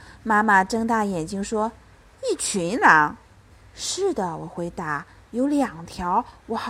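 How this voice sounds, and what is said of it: Usual voice. Nothing is said of it.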